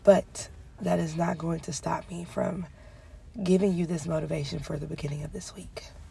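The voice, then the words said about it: Sick-sounding voice. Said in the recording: “As you can hear it in my voice again, I am sick again”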